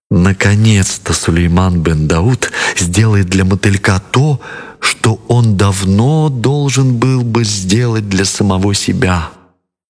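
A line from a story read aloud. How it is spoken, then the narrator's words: Whisper. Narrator (Russian): Балкис прошептала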